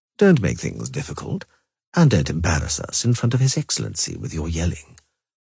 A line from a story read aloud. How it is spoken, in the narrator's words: Foltest spoke calmly, soberly, and very placatingly